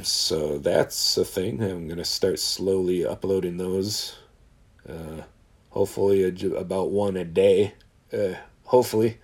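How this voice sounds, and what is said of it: Hoarse voice. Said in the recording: “I'm fucking hoarse again”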